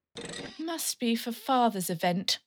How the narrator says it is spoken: sighed

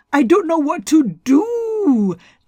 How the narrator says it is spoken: the god wailed

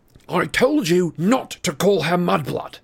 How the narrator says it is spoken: snarled Harry

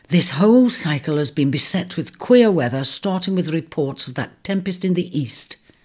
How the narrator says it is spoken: she muttered aloud

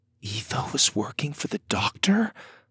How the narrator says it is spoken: Lydia whispered

